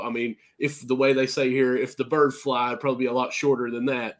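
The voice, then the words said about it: Rural American country accent. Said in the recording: “I've got this country accent. ... a little bit of an accent with me here. You know, he can have that little draw a little bit.”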